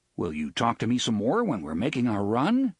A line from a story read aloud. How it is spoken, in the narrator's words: asked Engineer Bob